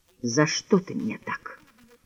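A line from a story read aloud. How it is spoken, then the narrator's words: Quiet, bewildered, unreproachful. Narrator (Russian): прибавил он тихо, без упрека, только с бесконечным удивлением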